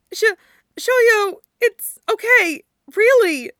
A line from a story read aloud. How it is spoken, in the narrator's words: Yachi squeaked